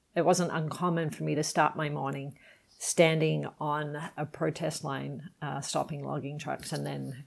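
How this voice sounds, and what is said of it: Unusual mixed English accent. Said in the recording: “I live in Canada now, as you can probably tell from my now funny accent”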